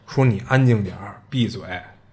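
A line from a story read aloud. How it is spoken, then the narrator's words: Lowered voice. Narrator (Chinese): 马蒂娜压低嗓音的对他对马可说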